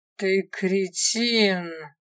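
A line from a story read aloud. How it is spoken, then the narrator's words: Growled. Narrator (Russian): рыкнула женщина-вождь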